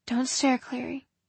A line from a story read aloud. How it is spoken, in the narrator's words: Jocelyn said under her breath